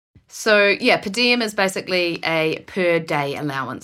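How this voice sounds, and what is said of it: Charming foreign accent. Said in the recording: “you can say in a more charming... accent than my annoying voice.”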